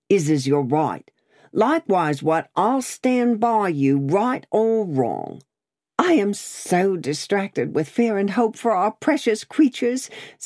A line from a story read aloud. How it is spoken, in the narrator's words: said Miss Pross, wildly crying